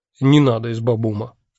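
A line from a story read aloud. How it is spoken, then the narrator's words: Stern. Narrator (Russian): строго сказал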